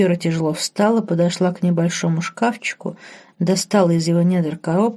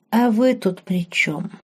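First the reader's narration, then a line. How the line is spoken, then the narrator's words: Sighing, honest answer. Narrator (Russian): Марк вздохнул, набрал в легкие как можно больше воздуха и честно ответил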